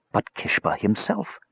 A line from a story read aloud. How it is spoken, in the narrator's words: he whispered